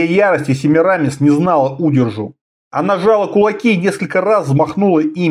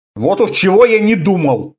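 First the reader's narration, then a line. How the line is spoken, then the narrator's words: Snort. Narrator (Russian): фыркнул Конан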